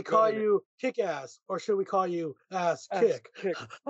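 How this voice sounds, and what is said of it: Imitates another person's voice. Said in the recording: “His Adam West impression was freaking spot on. ... It was so spot on, dude. It was so good. The Adam West impression was so good.”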